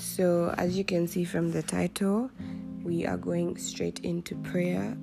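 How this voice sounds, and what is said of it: Strained, unwell-sounding voice. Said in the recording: “apologize for my voice. It's really not in a good place right now”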